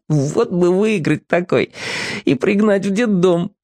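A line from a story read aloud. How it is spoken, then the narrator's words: Quiet giggle. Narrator (Russian): хихикнул про себя Сушкин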